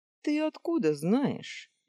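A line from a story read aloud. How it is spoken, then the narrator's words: Cheerful. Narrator (Russian): весело спросил Зеро у своей спутницы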